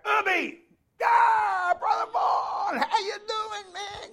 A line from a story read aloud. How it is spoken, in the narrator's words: I yelled out